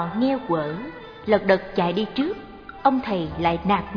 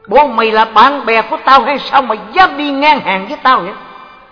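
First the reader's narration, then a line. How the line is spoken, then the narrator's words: Glaring shout. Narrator (Vietnamese): ông trợn mắt quát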